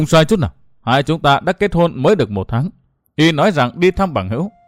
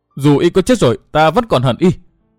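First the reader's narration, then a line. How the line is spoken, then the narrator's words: Tearful roaring. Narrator (Vietnamese): Nước mắt của hắc phong nữ Tiêu Như Anh lại chảy ròng ròng xuống, gầm thét nói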